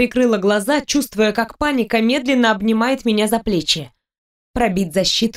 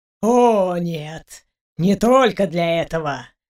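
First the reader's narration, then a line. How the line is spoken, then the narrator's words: Smirking grunt. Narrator (Russian): хмыкнул Архимаг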